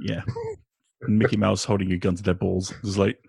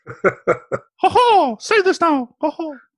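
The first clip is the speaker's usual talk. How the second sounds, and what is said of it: Mickey Mouse cartoon voice. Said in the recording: “my Mickey Mouse impression... It's pretty good, too.”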